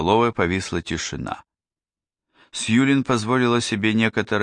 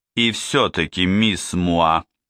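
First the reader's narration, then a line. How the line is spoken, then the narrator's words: Stern question. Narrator (Russian): спросил Двали все тем же строгим голосом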